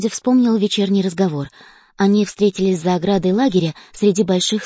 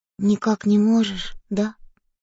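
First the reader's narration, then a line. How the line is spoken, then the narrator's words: Quiet question. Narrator (Russian): тихо спросил он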